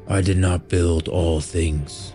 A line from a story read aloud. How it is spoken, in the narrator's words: Orin grumbled